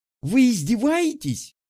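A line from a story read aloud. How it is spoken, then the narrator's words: Shouted. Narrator (Russian): закричала она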